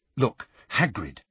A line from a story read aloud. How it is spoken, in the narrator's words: said Hermione urgently